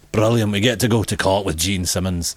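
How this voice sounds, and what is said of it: Put-on Scottish accent. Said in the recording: “I should have done that in a Scottish accent.”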